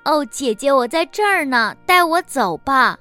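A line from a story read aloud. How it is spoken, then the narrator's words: Child's hurried shout. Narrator (Chinese): 小男孩连忙 喊道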